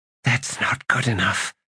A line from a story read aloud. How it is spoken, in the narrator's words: she whispered